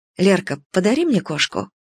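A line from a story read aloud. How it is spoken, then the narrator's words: Quiet request. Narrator (Russian): тихо попросила Лена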